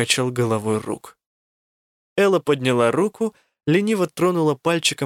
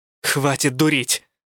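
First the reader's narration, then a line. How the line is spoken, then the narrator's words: Growling. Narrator (Russian): рыкнула я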